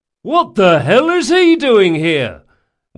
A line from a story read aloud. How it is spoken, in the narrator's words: one of them hollered